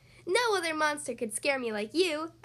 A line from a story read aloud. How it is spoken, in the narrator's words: I giggled